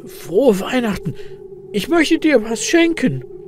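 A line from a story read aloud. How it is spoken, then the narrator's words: Excited croak. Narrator (German): krächzt Elias mit aufgeregter Stimme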